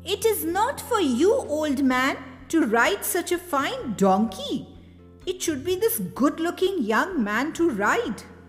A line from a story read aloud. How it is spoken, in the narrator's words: They called out to the old man